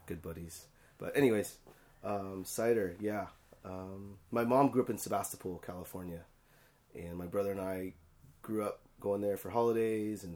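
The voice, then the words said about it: Hoarse, strained voice. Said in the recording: “sorry for my voice. ... And I lost it.”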